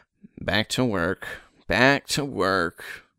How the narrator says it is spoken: he mumbled

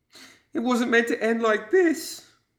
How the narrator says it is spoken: wailed the garbed figure

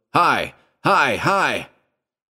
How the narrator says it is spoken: At the top of his voice, he yelled

